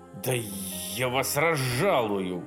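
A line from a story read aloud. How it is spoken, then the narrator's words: Hissed threat. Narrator (Russian): прошипел Хаусман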